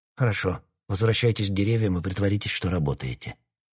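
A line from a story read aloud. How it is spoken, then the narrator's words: Quiet. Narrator (Russian): тихо сказал он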